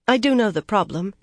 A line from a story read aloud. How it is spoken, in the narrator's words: she said in a more normal tone